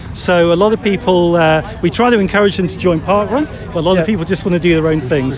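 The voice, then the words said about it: Slight British accent. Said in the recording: “just detecting a little accent there, I'm guessing you're not a natural born Malaysian ... I'm actually from the UK”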